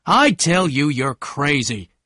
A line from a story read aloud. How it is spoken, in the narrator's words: Tom shouted again